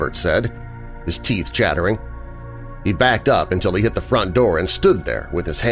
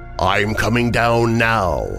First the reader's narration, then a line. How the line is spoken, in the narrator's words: the voice boomed again